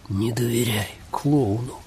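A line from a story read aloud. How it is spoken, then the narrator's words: Breathless. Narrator (Russian): выдохнул Джозеф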